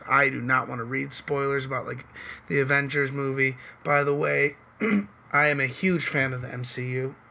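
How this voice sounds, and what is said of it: Hoarse, raspy voice. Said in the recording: “I'm losing my voice a little bit... I chose to start on a day where I'm losing my voice... I have a cough... fight through their raspy voice”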